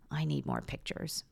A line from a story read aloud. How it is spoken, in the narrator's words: mumbling